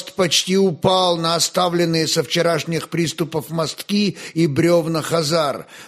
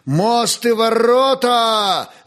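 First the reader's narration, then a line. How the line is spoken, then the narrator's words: Booming command. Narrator (Russian): зычным голосом повелел князь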